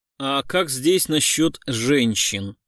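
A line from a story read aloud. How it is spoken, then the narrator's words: Plain. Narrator (Russian): спросил Гуров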